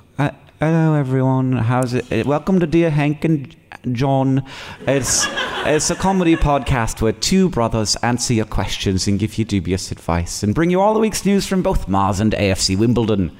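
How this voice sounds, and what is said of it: Mild posh British accent. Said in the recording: “mild, like posh British accent ... I kind of like went into a different one at the end there”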